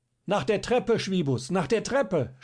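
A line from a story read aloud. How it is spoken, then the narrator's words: Fearful urgent shout. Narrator (German): schrie ihm jetzt Schierling zu, der fürchtete, die Leitern könnten zu spät kommen, ihn von da aus zu retten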